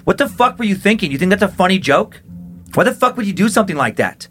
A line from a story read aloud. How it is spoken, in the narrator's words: Chris was shouting